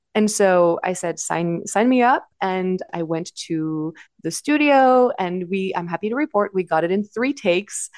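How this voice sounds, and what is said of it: Slight French accent. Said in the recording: “I am French. I don't think I sound like a stereotypical French person. But, you know, there might be a little bit of an accent here and there ... a slight French accent”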